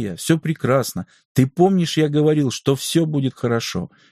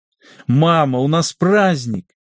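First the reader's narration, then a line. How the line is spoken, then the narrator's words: Happy laughing. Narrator (Russian): счастливо рассмеялся Димитрос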